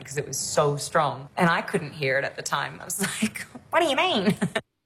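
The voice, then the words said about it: Australian accent. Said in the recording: “dialect coach to come in to soften my Australian accent”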